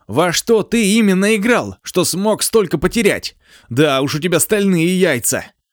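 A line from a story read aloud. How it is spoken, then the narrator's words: Nearly shouting. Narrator (Russian): Цзюньсе почти кричал на него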